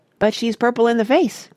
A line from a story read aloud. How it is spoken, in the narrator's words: cried Grandpa Joe